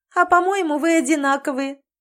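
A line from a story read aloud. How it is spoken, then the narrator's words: Laughing. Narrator (Russian): засмеялась Мэри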